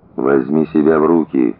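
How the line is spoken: Quiet reply. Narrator (Russian): так же тихо ответил Коля

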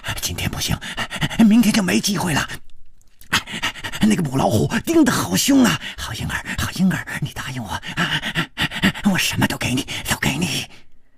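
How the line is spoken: Heavy breathing. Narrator (Chinese): 师传宗的喘息声更粗了

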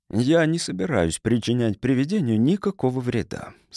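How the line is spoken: Plain. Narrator (Russian): сказал он

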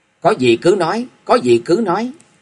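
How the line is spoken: Hurried and loud. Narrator (Vietnamese): chàng vội vã, lớn tiếng nói

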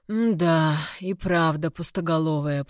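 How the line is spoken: Muttered under breath. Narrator (Russian): пробурчал себе под нос

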